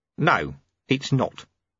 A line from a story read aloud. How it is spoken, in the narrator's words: said Ronnie calmly